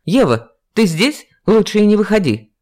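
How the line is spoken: Female friend shouting. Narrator (Russian): Крикнула подруга

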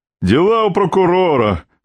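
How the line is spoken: Short laugh. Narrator (Russian): хохотнул Родов

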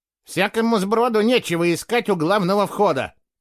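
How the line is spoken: Sharp. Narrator (Russian): резко сказала она

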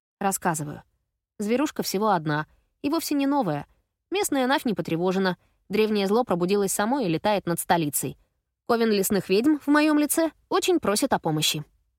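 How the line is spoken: Brisk cheerful report. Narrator (Russian): бодро отрапортовала

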